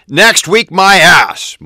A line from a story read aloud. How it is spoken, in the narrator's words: Michael bellowed